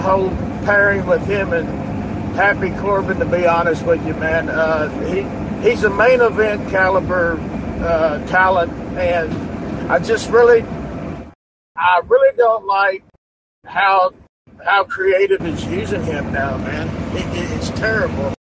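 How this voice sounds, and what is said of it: Kentucky accent. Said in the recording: “you are giving me Stone Cold vibes right now, the way you sound ... your accent makes me sound like I'm talking to Stone Cold ... I'm actually Louisville, Kentucky”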